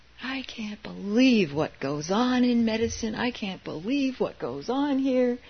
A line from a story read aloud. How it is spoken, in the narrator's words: he was angrily saying